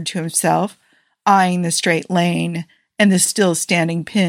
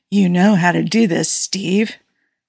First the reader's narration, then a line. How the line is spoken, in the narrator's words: Tony breathed against the back of his neck